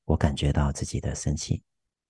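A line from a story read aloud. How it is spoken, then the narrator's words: Gentle inner voice. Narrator (Chinese): 温柔的在内心里面告诉自己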